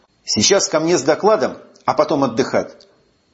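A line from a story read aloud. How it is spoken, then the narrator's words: Firm voice. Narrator (Russian): уже твердым голосом сказал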